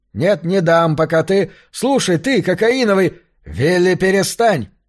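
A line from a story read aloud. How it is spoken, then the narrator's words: Very loud barking. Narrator (Russian): Хьюстон рявкнул так громко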